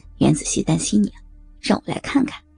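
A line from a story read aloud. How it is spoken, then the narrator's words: Low, laughing. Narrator (Chinese): 大雄低声笑着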